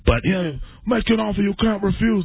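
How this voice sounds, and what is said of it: Godfather-style Italian impression. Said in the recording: “That's my godfather ... technically kind of Italian”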